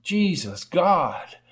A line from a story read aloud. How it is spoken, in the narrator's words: exclaimed the rider